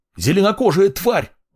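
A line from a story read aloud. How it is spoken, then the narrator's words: Shouting. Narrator (Russian): выкрикнул еще один смельчак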